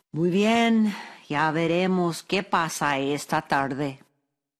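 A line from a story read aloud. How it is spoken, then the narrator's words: Sighing, grieved. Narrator (Spanish): Don Ignacio quedó acongojado por la pérdida de todas las manzanas, pero suspiró y dijo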